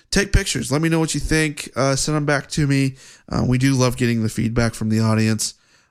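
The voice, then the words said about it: Congested, deeper voice from a cold. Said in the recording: “I do have a bit of a cold. My voice has kind of gone in and out... if I sound a little funny, and if I sound a little deeper than usual”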